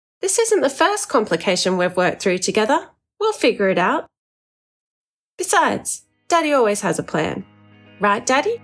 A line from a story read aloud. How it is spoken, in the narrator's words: Betty said brightly